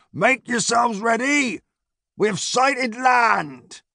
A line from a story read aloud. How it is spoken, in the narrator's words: a sailor bellowed down